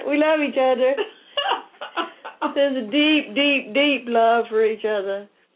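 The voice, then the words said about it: Put-on Southern accent. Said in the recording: “you go into your southern accent when you go there.”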